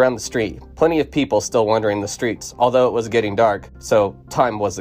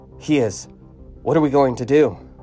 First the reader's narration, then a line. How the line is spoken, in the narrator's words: she gasped